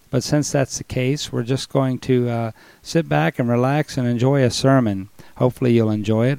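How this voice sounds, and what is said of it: Weak voice with a cold. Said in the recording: “my voice is a little weak, I've still got a cold. I got a sore throat last week ... I'm still kind of having trouble with this chest congestion, and I go into these coughing spells”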